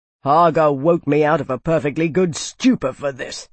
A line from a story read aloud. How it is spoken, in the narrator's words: he snapped